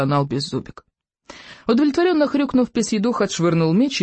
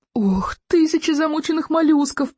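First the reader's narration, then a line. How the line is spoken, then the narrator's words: Groaning. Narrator (Russian): простонал рыбий ног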